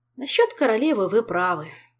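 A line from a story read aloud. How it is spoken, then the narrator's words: Sigh. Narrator (Russian): вздохнул Мишель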